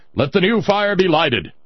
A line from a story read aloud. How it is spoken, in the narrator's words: the chief priest of all the priests present, the high priest of Huitzilopochtli, commanded in a mighty roar